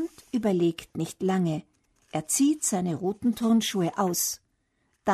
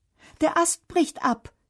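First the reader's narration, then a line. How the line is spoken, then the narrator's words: Calling out. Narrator (German): ruft Bernd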